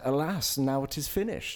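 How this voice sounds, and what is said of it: Affected put-on artsy accent. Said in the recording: “What accent was that? ... That wasn't any accent. That was artist accent.”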